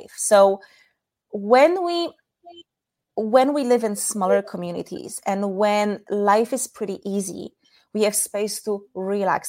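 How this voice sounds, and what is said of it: Polish accent. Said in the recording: “my weird accent, I'm from Poland”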